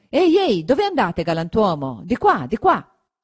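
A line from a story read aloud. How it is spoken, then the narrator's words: Shouting after someone. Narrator (Italian): Gridatogli dietro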